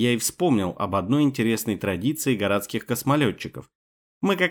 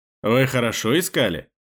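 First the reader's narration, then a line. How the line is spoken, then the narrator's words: Loud laughter. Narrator (Russian): Сернан захохотал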